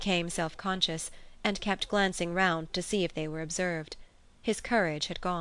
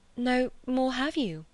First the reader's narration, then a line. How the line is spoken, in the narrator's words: she stammered